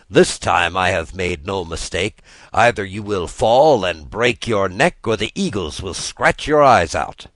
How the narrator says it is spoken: laughed

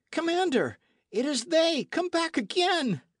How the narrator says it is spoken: the midshipman, making himself, as it were, the echo of the body, cried

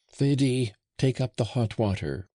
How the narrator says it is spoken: cried Flore

